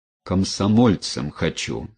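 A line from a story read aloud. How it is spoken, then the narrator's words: Plain, son. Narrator (Russian): сказал сын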